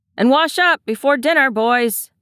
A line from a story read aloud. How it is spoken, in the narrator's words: calls, raising his voice so it can be heard